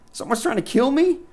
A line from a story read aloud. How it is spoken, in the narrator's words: I blurted with damaged calm